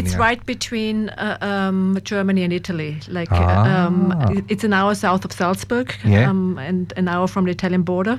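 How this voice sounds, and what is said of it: Austrian-accented English. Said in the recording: “I have to be careful when I say it with my accent.”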